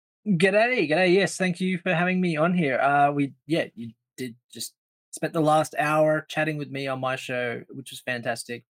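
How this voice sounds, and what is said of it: Australian accent. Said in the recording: “accent, don't get it confused. That's not a Southern Alabama accent. He is from the down under. Australia”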